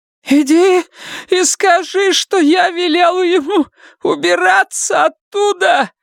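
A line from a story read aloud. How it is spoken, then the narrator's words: Shout. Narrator (Russian): закричала она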